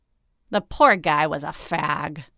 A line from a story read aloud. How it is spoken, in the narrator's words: Mahan sneered